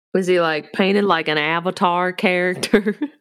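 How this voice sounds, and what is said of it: Put-on Southern US accent. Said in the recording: “you just got real Southern ... my best Ray Ray impression”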